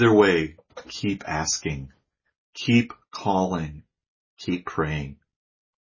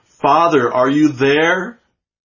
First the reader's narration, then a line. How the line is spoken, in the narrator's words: shout it